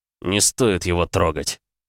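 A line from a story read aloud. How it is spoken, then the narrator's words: Growling. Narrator (Russian): прорычал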